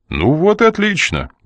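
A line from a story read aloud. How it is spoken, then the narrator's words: Brisk, cheerful. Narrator (Russian): бодро проговорил Коридан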